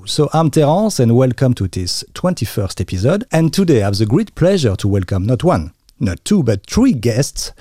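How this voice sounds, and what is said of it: French accent in English. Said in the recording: “The French accent might be pretty normal”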